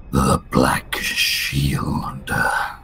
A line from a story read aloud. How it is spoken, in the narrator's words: whispers